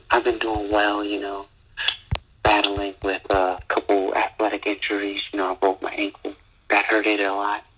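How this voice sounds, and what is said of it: Tired, soft ASMR-like voice. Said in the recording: “My tired voice. ... It's my tired ASMR voice”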